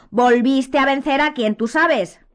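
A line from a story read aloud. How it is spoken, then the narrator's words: Almost shouting. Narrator (Spanish): continuó Ron ya casi a voz en grito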